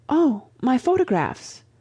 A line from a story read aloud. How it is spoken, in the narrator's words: she exclaimed suddenly